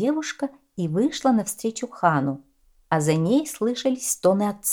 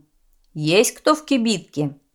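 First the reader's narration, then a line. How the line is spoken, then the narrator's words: Shouted. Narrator (Russian): Хан Цицен крикнул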